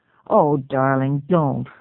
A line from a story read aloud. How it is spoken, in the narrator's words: said